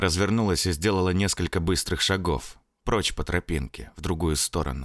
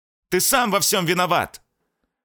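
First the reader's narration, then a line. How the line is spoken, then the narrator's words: Shouting. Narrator (Russian): Крикнула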